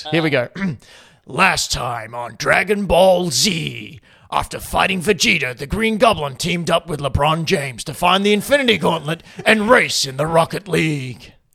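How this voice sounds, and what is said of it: Dramatic TV recap narrator voice. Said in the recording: “I have to do it in my recap voice.”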